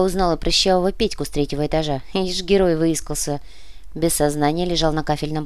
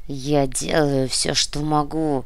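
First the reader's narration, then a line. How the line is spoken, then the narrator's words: Grumble through teeth. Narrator (Russian): сквозь зубы проворчал Ктулху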